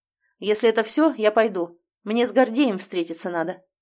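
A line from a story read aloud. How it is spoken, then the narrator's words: Loud announcement. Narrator (Russian): громко сообщает на всю столовую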